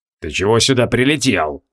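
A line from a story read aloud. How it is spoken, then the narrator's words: Gloomy. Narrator (Russian): мрачно спросила Санта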